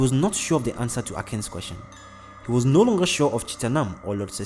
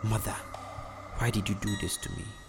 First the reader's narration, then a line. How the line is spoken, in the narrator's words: Jansi murmured to himself